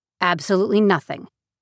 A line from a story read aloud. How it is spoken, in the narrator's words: Nora repeated in a clipped tone